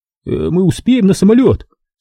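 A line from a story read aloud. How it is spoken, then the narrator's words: Trembling voice. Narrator (Russian): спросил дрожащим голосом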